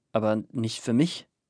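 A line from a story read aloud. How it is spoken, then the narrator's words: Stammered. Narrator (German): stammelte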